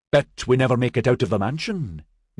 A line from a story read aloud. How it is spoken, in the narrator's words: Maxon said cheerfully